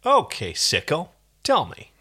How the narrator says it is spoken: In a deceptively calm voice, said

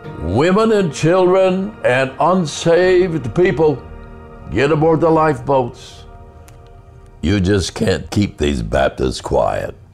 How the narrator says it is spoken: that Baptist minister ran around the deck shouting

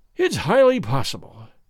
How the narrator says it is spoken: said he, sighing

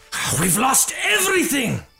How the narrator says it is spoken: shouted, his voice trembling with anger and regret

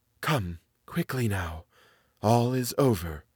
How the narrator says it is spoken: Thorpe whispered

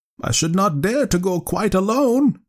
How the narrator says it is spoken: she went on, raising her voice

